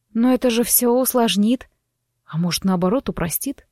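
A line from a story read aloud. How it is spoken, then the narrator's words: Quiet objection. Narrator (Russian): тихо возразил он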